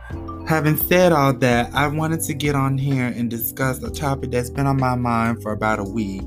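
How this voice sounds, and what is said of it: Raspy voice. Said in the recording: “my little raspy voice”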